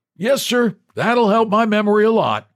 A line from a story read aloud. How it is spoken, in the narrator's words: the old man, who grinned and shouted